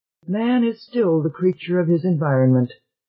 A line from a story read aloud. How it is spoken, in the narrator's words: sighed Luis Montes